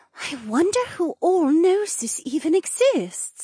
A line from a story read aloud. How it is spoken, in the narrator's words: Anja said in a breathy voice full of awe